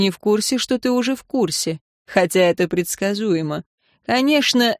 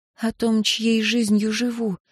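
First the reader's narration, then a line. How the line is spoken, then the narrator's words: Near whisper. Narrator (Russian): сказала она почти шепотом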